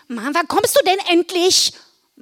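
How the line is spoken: Calling out. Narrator (German): rief sie

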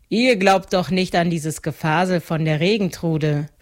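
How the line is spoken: Mocking farmer. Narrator (German): spottete der Wiesenbauer

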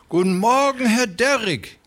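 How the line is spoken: Fat man calls out. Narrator (German): rief der Dicke

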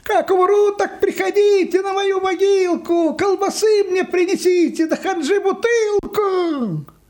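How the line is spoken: Distant shouting. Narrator (Russian): Йоська кричал где-то уже в отдалении

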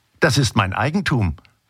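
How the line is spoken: Plain. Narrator (German): sagte sie

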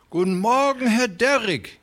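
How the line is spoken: Fat man calling out. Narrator (German): rief der Dicke

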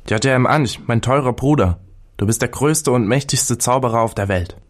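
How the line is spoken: Amazed exclamation. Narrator (German): Der Pharao, der dem allen staunend zugesehen, rief aus

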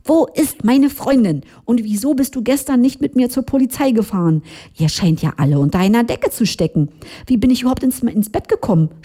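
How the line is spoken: Shouting at someone. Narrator (German): schrie sofort an

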